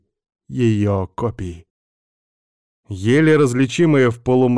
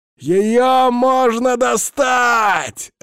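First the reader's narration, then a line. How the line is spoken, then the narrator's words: Joyful roar. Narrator (Russian): радостно взревел карлик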